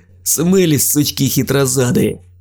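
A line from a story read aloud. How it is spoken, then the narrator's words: Laughing. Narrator (Russian): рассмеялся Дим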